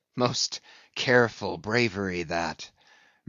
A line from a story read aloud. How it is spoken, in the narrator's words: murmured Ahab